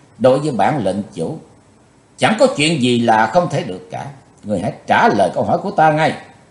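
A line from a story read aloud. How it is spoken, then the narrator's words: Threatening. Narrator (Vietnamese): lời nói của Chí Tôn như dọa nạt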